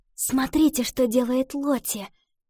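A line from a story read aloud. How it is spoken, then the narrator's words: Whispered. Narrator (Russian): шепнула Ива девочкам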